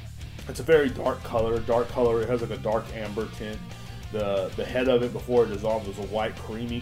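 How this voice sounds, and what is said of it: Usual voice. Nothing is said of it.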